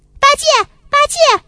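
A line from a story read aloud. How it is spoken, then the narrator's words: Calling out. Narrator (Chinese): 孙悟空在叫他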